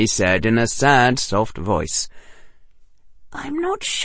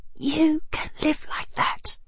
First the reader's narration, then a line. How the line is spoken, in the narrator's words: whispered Hermione Granger